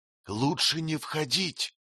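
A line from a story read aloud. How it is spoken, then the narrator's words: Whisper in ear. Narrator (Russian): шепнул на ухо Кэт Дунпат Рай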